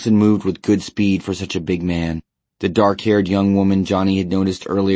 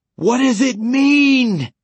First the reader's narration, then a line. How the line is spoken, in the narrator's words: Johnny screamed, but no sound passed his lips